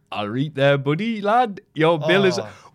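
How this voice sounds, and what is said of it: Bad impression of a foreign accent. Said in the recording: “telling people in a heel voice ... Only we can do the bad impressions of foreigners”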